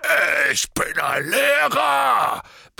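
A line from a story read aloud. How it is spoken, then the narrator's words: Bellowing. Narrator (German): brüllte er Harry an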